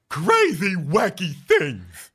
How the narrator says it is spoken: he says in a silly voice

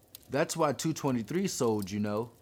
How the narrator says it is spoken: Gracie says

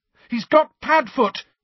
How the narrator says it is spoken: he shouted

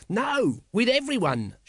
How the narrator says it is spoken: shouted Nobby, hopping from one foot to the other

